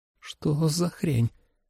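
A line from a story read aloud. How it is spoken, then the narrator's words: Quiet trembling question. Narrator (Russian): тихо спросила Холли дрожащим голосом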